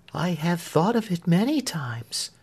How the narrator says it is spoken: said Marion gently

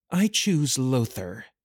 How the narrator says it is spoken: she spat, the act of the sultry sea witch vanishing

